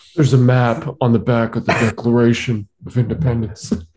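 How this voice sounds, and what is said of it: Bad impression of an actor's voice. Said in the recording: “terrible Cage impression”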